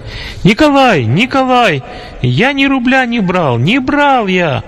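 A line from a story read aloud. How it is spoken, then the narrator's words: Frightened scream. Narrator (Russian): испуганный голос Димы, который по-настоящему кричал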